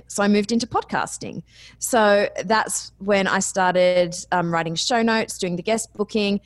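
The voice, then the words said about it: Speaker's own noticeable accent. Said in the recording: “I couldn't get a job in radio with this accent.”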